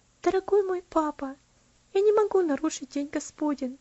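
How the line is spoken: Quiet tender reply. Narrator (Russian): ответила она тихим, нежным голосом, не поднимая головы

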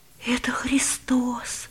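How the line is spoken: Boy's whisper. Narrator (Russian): прошептал мальчик

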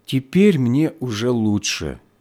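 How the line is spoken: Speaking after deep sigh. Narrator (Russian): она глубоко вздохнула и проговорила

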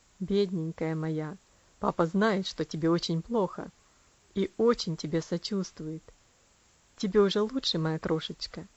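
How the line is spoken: Soft tender voice. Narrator (Russian): он мягко сказал

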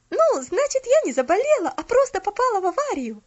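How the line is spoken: Relieved exclamation. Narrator (Russian): С облегчением воскликнула Поллианна

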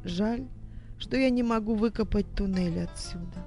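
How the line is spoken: Sighing. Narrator (Russian): вздохнула она

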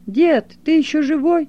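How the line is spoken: Shouted. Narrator (Russian): Толик и тут крикнул

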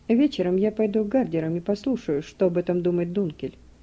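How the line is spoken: Plain. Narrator (Russian): сказал Дерксен

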